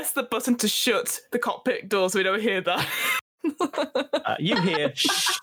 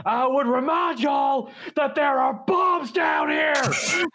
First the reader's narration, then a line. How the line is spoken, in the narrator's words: yell up from the room with all the bombs